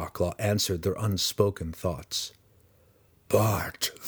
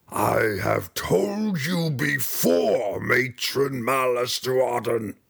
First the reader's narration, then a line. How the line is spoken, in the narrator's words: the Yawklaw snarled with its droopy mouth